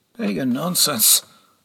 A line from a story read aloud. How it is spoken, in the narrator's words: Gormgol muttered